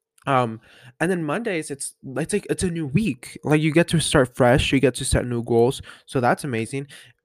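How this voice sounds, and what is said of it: Slightly rough, hoarse voice. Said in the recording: “my voice is a little rough. I had a party last night”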